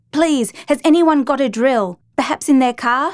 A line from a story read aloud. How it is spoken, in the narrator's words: she said loudly